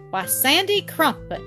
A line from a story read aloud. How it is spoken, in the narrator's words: exclaimed Jean reprovingly